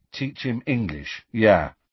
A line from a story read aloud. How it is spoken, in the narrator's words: said Harry